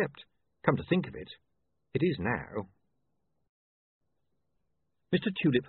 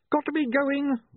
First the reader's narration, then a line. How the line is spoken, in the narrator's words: William screamed